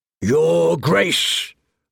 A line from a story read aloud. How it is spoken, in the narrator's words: barked, ever the loudest